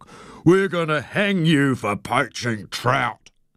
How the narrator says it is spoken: I bellowed through my cupped hands

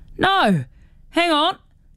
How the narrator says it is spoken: yells Jinx

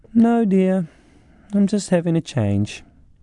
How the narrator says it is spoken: my mother stayed strangely calm and just replied dreamily

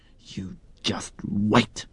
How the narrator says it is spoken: Rata hissed as he ran off

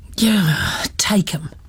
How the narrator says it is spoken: the man had sighed

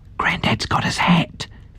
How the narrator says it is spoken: Fiona whispered

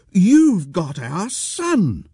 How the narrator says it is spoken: Jill cried

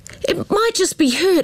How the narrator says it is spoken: Amber cried

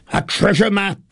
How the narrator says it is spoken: Potiphar cried with pleasure

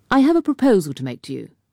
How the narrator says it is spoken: said Pitford

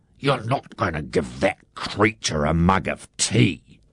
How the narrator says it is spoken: Harry Wakatipu hissed

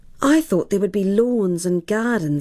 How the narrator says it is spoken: sighed Eddie, his dreams of grandeur fading

